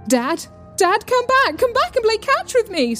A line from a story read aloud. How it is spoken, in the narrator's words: screamed Mulder, Freudiantly